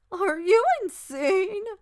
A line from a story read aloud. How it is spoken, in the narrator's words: she wheezed